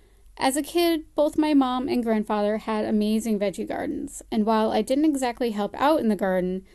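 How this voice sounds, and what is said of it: American accent. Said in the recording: “hence the American accent.”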